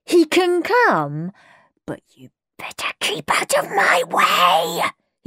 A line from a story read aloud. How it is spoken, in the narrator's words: he hissed at Peter